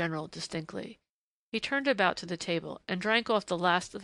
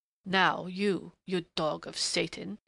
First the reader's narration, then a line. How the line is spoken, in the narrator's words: he snarled in a sudden snapping of restraint